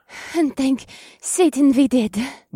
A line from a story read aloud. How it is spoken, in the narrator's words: Revna breathed